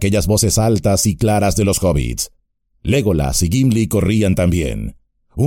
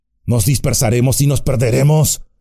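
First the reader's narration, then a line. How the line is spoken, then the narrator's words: Growl. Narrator (Spanish): gruñó Aragorn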